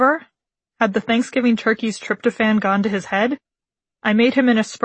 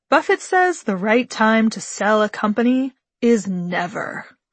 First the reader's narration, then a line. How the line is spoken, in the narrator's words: Sagely, slowly, like a Zen koan tinged with Pinot Noir, my dad replied